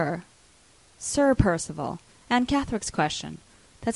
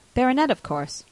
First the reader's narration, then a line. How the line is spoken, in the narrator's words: She paused for a moment, and then answered, rather coldly